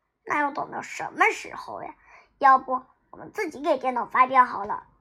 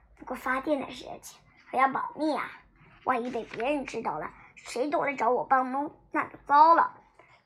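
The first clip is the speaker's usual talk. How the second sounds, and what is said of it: Quiet, hushed voice. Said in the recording (Chinese): “小声说”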